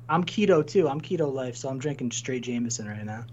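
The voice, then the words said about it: Drunk-sounding voice. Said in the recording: “I'm drinking heavily, if you can't tell by my voice.”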